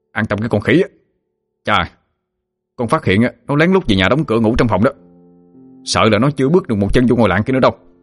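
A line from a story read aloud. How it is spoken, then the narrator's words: Threatening shout. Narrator (Vietnamese): Hưng dọa nạt mà quát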